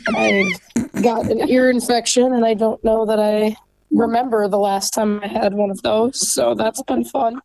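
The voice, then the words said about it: Sick-sounding voice. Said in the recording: “you can tell by my voice that they are very good at passing on any virus that they can find”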